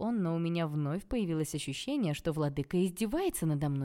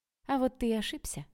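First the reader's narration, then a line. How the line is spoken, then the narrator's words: Calm reply. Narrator (Russian): ответила я спокойно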